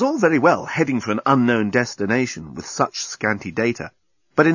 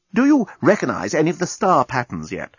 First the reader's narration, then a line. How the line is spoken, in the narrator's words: asked the navigational officer anxiously